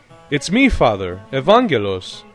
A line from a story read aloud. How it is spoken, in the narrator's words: Nikitas could no longer bear it and exclaimed